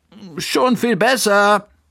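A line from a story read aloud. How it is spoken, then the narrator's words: Calling out. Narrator (German): rief Bertha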